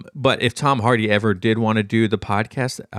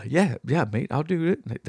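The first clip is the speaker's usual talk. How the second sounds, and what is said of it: Poor imitation of another person's accent. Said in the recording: “my horrible Tom Hardy accent”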